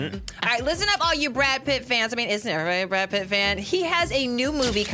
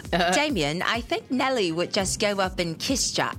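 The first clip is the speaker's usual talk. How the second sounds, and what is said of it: Australian accent imitating Margot Robbie. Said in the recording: “this is my Australian accent, y'all.”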